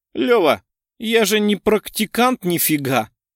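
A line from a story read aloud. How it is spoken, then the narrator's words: Laughing. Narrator (Russian): рассмеялся Станислав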